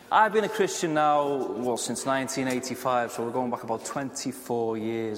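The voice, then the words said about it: Northern English accent. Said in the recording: “this is a sophisticated accent. For those of you from Liverpool, you all agree, I'm sure. And it is, thank you, it is a northern accent.”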